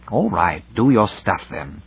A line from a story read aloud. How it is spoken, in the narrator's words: growled Devine